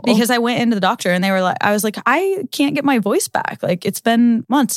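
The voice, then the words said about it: Lower, slightly raspy voice. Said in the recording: “I actually used to have a very high pitched voice ... I permanently damaged my vocal cords. So now this voice that you guys hear, that's a little lower, a little raspy”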